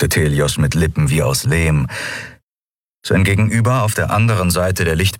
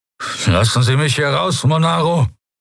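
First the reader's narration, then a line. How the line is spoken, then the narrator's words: Trying to sound angry, commanding. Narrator (German): Telios wollte zornig klingen, befehlend, hart wie Stahl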